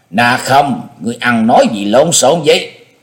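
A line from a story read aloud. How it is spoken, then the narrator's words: Angry, stern shout. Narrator (Vietnamese): Thiết Mộc Lê giận dữ nghiêm nghị quát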